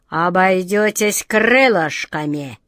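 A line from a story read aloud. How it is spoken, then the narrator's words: Menacing grumble, short man. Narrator (Russian): с угрозой проворчал коротышка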